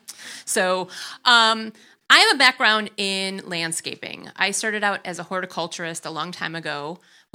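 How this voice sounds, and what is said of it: Wisconsin accent. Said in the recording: “bear with my accent. I say Wisconsin.”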